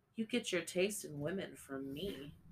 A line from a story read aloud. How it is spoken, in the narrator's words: he chuckled